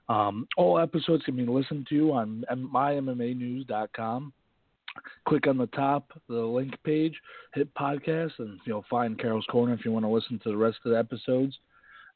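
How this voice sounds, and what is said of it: Raspy voice. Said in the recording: “Excuse my raspy voice. I'm, like everyone else, been hit by a cold”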